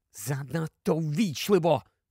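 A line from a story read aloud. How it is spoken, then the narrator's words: Whispered into ear. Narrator (Ukrainian): прошепотів Гаррі в ухо Герміоні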